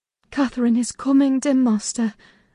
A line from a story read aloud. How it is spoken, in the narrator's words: I whispered